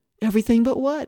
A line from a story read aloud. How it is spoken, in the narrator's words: I cried